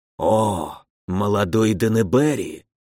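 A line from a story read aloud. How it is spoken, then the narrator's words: Familiar whisper from behind. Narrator (Russian): знакомый шепот ударил мне в затылок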